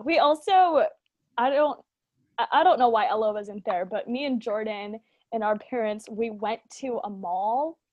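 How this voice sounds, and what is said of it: American accent. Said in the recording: “God help my American accent”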